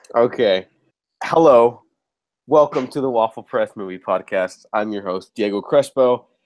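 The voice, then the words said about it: Nasal voice from a cold. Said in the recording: “I'm getting over a really bad cold, so if I sound a little nasally,”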